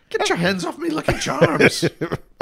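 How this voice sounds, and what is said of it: Put-on Irish accent. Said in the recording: “break out your Irish accent”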